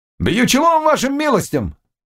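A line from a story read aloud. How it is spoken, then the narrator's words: Loud, sharp, impatient. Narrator (Russian): повторил он громко и резко, когда ему не ответили сразу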